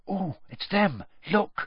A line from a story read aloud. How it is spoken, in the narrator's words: Hermione whispered